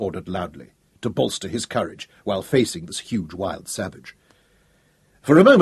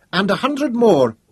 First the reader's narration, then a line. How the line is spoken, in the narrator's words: Katinka called out